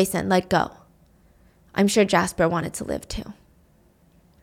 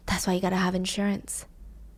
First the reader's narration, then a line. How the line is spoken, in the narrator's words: He whispers